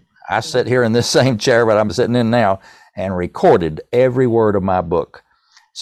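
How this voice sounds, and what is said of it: East Tennessee accent. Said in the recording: “my East Tennessee accent”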